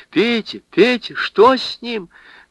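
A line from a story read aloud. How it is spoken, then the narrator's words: Terrified scream. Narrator (Russian): закричала перепуганная насмерть Лиза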